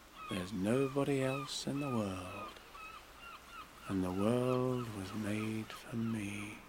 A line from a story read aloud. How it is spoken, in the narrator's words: I'd say to myself